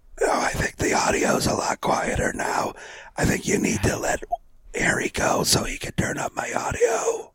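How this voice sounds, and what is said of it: Whispering, quiet voice. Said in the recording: “you're whispering. That's why it's quiet.”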